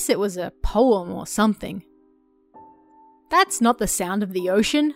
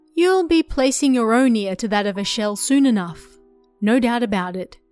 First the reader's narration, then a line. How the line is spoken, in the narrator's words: she said